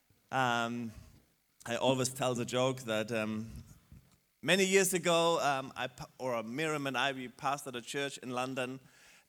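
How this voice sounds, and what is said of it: German-accented English. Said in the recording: “my German accent”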